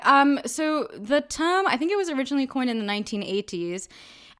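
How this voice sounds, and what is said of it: British accent. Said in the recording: “that's why you're hearing a British accent ... When I talk to all of my family members, I have a British accent”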